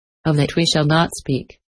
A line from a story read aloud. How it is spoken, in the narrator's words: she said kindly